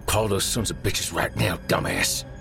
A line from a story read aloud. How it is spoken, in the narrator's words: Derek rasped